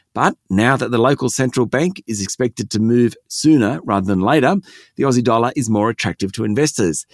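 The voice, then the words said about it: Croaky, nearly lost voice. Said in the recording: “you're sounding a little bit croaky this morning ... I've almost lost my voice”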